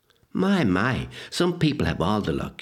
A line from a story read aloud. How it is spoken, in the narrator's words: she sighed